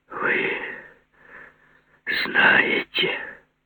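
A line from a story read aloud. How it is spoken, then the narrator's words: Anguished, hateful exhale. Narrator (Russian): выдохнул наконец Груздев с тоской и ненавистью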